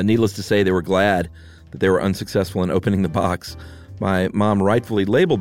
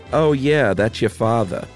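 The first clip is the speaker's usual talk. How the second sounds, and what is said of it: Put-on Long Island accent. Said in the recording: “I'm just trying to do my best Long Island accent... You did a great one.”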